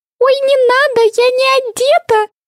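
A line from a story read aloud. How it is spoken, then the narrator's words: Squealed. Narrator (Russian): взвизгнула Винни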